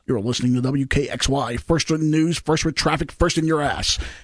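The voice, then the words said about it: Cheesy radio announcer voice. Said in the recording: “he'll talk in this cheesy radio... Is that your cheesy radio voice?”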